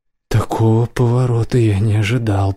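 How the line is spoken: Muttered. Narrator (Russian): пробормотал Ланс

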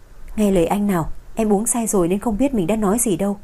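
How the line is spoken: Sighing, soft pleading. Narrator (Vietnamese): Anh thở dài bất đắc dĩ hạ giọng, năn nỉ

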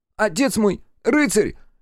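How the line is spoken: Thin pitiful squeak. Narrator (Russian): Еще более тонко и жалко пискнул Йергерт

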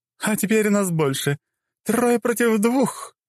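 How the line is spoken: Queen's loud laughter. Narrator (Russian): расхохоталась царица

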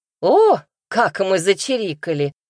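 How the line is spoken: Boy's scoffing snort. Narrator (Russian): хмыкнул мальчишка

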